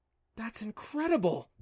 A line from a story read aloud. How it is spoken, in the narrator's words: Clancy gasped